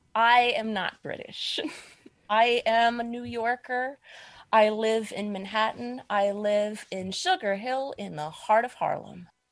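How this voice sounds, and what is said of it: American accent. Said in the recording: “You sound American.”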